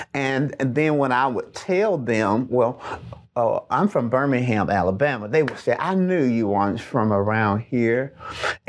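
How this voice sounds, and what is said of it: Southern American accent. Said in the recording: “is because of my accent. we, most of us who live in the South, have a Southern accent.”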